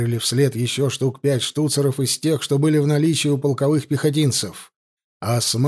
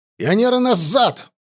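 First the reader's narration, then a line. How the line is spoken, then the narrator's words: Bark. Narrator (Russian): рявкнул Егоров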